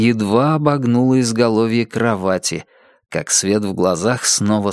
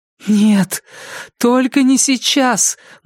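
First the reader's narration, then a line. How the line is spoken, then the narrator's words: Silent inner plea. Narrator (Russian): мысленно взмолилась Джесси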